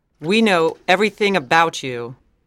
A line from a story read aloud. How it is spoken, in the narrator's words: said Barbara